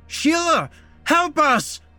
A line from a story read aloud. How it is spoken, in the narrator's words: Matt screamed out as cold, disgusting water poured into his mouth